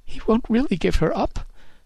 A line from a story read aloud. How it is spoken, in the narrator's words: she sobbed